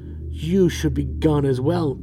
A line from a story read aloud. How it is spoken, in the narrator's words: she snaps